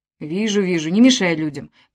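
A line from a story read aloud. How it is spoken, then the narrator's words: Contented grumble. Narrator (Russian): проворчал он довольным голосом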